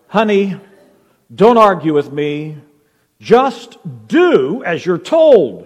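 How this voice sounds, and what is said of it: Firm, stern parental voice. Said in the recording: “in a firm voice,”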